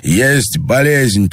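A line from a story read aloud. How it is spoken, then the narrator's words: Nearly shouting. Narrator (Russian): почти крикнул Андрей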